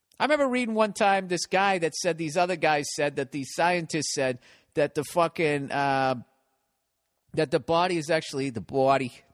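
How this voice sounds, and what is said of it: Boston accent on 'body'. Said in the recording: “My Boston accent coming back. B-A-W-D-Y, body”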